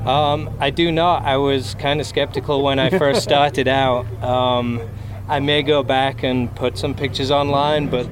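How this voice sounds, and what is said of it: British English accent. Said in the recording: “which part of Utah is your accent from? ... somebody from the UK”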